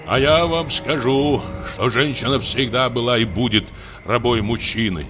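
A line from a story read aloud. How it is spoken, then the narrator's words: Deep bass voice. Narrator (Russian): заговорил он басом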